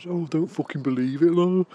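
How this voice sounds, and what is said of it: Imitated Stoke accent, sounding Brummie. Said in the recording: “not entirely representative of a Stoke-on-Trent accent... that actually sounded a little bit more Brum”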